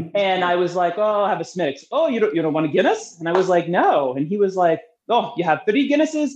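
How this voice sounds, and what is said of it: Usual voice. Nothing is said of it.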